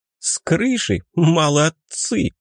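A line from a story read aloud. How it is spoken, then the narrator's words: Loud laughter. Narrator (Russian): снова захохотала Аньес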